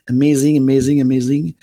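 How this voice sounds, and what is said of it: Put-on French accent. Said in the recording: “I love to say it like Nassim Aramain or French accent.”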